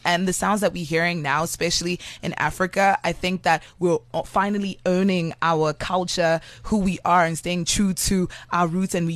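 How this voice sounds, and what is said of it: Accent with American influence. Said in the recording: “I hear an accent ... that accent sounds very much like it has an American influence”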